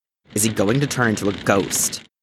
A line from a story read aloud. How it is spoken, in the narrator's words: Jason snarled out